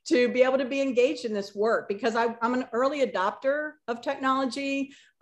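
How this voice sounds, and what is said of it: Excited, enthusiastic voice. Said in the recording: “I'm just very excited, as you can tell by my voice”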